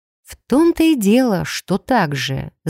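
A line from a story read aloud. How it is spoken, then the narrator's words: Thoughtful drawl. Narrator (Russian): задумчиво протянула я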